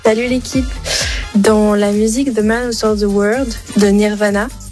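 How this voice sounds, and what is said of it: Very good English accent. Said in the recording (French): “Elle a un très bon accent anglais.”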